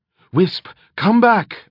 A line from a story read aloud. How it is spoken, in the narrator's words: Eretria cried